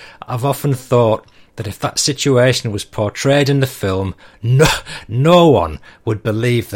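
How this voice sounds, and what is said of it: Usual voice. Nothing is said of it.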